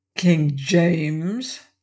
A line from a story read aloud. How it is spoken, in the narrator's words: sneered